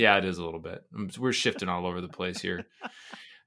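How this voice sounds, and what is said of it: Usual voice. Nothing is said of it.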